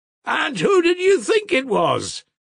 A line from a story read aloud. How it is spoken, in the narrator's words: Krasotkin shouted with all his might, in a ringing, happy voice